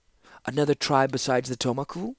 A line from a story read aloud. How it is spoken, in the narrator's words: asked the Seneschal, nervously